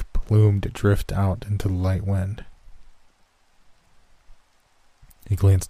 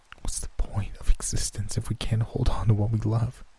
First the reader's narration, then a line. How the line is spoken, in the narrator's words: I said, my voice quivering while his jacket moistened from the steady flow of tears dripping from my cheek